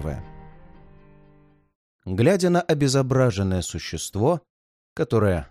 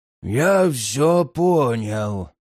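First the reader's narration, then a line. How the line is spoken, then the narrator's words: Hoarse wheeze, great guard. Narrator (Russian): просипел великий страж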